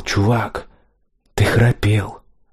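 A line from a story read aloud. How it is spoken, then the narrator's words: Young man whispering. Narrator (Russian): Какой-то парень прошептал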